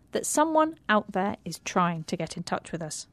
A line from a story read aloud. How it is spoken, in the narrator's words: said Annie firmly